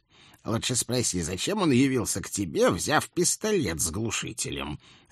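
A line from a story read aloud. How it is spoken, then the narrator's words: Reasonable, with a snort. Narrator (Russian): резонно хмыкнул дядя Эдик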